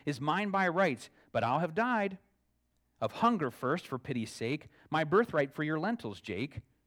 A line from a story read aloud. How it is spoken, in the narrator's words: Esau cried